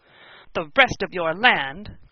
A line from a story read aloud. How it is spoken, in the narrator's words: cried Lou, growing more excited every minute